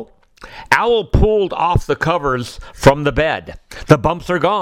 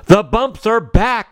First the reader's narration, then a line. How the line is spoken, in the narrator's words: shouted Owl